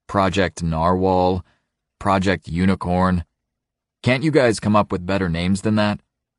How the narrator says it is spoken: I laugh

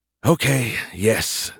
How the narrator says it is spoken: Skippy groaned

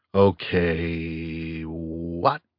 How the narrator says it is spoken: I asked quietly

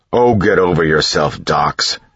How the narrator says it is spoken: Ham snapped

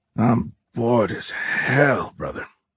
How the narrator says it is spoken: Horn muttered quietly

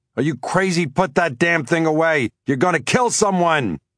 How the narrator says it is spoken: I yelled

